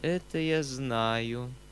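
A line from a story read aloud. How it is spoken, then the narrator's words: Weak but dignified voice. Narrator (Russian): отвечал Фома слабым голосом, но с невыразимым достоинством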